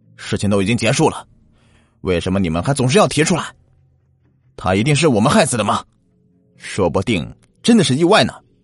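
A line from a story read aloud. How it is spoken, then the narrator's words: Furious roar. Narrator (Chinese): 老大大吼道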